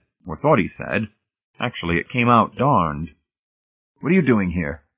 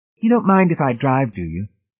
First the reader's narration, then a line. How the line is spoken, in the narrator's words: She asked wistfully